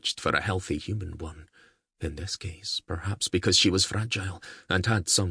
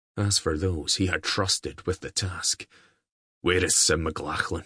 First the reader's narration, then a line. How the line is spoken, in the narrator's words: He growled